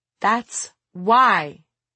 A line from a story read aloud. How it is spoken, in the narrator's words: she replied in a raised voice